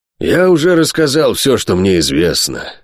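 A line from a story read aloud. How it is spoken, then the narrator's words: Sigh. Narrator (Russian): вздохнул Питвик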